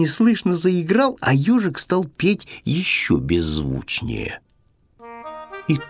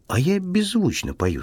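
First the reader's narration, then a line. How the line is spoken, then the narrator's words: Plain. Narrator (Russian): сказал ежик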